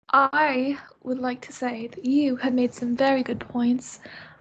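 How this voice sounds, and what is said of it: Poor put-on British accent. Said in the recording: “I'm speaking in a British accent... That was horrible.”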